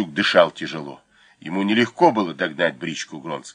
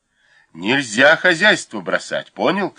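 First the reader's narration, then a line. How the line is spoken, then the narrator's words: Shout. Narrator (Russian): крикнул Волощук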